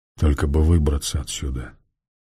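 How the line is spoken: Muttered. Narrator (Russian): пробормотал этот странный человек

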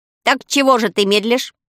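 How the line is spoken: Angry crow's shout. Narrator (Russian): сердито крикнула ворона

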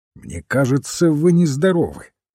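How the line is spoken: Irritated remark. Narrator (Russian): раздраженно заметил доктор

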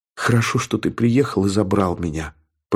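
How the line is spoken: Whisper. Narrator (Russian): прошептала она

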